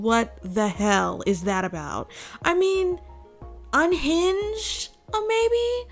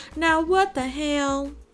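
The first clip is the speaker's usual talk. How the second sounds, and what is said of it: Exaggerated country accent. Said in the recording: “that was a big country accent there.”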